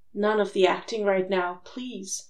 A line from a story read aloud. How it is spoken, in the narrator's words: Louis begged softly